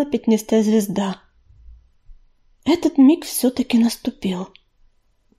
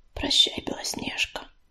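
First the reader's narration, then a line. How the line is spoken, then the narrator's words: Whisper. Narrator (Russian): прошептала Листвичка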